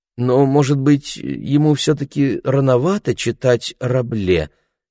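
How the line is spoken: Uncertain question. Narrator (Russian): неуверенно спрашивала мама

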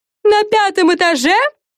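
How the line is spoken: Shouted from behind, strained. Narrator (Russian): крикнула Френ Лиззи, которая чуть отставала, потому что камера была довольно тяжелая

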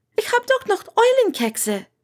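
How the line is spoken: Called after apologetically. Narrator (German): rief Hermine ihr mit einem entschuldigenden Blick hinterher

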